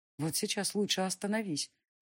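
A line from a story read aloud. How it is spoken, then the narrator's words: Inner voice whispering. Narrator (Russian): прошептал внутренний голос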